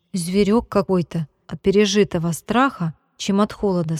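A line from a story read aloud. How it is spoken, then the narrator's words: Plain. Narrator (Russian): сказал Костя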